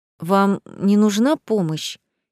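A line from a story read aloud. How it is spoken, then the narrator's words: Hesitant offer. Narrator (Russian): неуверенно предлагает начальник службы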